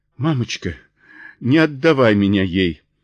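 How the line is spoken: Child sobbing. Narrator (Russian): сотрясаясь от рыданий, вымолвил Джой

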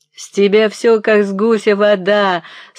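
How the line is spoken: Laughing old man, jesting. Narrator (Russian): смеялся остротя старик

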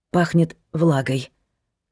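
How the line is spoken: Hoarse. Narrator (Russian): хрипло произнесла она

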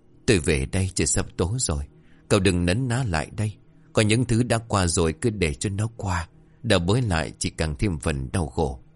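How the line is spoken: Soft throat-clearing. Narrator (Vietnamese): ông Đường khẽ đằng hắng

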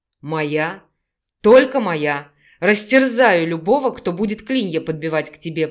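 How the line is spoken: Growling. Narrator (Russian): прорычал Санаров

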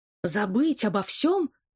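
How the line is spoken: Shouting into phone. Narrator (Russian): закричал я в трубку

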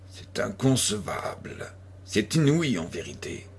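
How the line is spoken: Murmuring. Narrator (French): murmurait M

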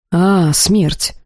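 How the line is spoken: Exhaled. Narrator (Russian): выдохнул Сагрус

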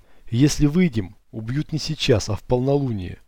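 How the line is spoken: Plain. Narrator (Russian): ответил я

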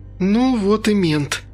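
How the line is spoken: Sighing. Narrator (Russian): вздохнула Инга

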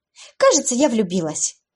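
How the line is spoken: Joyful exclamation. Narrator (Russian): радостно воскликнула подруга

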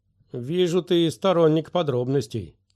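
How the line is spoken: Snorting. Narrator (Russian): фыркнул Флик

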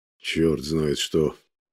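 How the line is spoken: Quiet indignation. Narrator (Russian): негромко возмущается Алексей Дмитриевич

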